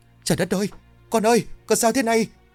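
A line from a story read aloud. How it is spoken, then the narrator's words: Shout. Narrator (Vietnamese): tiếng hét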